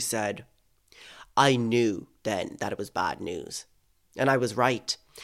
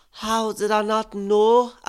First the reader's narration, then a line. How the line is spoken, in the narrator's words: I wailed